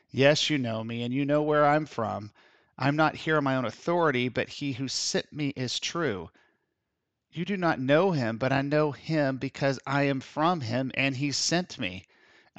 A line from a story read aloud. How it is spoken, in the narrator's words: Jesus, still teaching in the temple courts, cried out